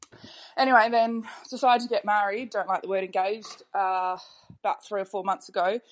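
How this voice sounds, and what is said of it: Australian accent. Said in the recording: “lovely to hear another Aussie accent”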